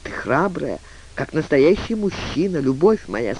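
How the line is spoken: Quiet, tender. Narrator (Russian): сказал тихо

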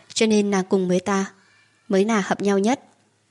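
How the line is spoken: Trembling speech. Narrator (Vietnamese): Khóe môi Phong Diên Thương run rẩy nói

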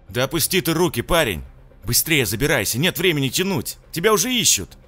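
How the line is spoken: Sharp shout. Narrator (Russian): прикрикнул таксист

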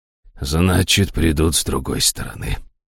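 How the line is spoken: Gloomy curt remark. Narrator (Russian): мрачно бросил

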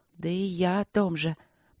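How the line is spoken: Mumbled. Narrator (Russian): пробормотала она

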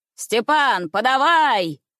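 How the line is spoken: Full-voiced shout, woman. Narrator (Russian): крикнула во весь голос клетчатая дама

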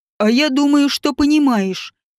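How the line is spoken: Angry, through teeth. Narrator (Russian): гневно процедил Ревальд

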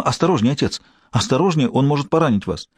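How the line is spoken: Exclaimed. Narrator (Russian): Маргарет воскликнула

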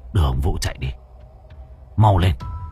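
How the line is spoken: Cold. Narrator (Vietnamese): Thì Hải lạnh lùng

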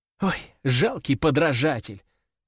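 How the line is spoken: Scornful hiss. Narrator (Russian): прошипела девушка

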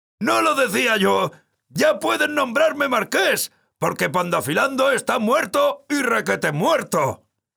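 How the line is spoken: Overjoyed shouting. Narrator (Spanish): Sancho gritó loco de alegría

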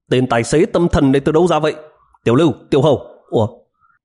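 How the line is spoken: Loud scolding. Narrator (Vietnamese): cất cao giọng mắng

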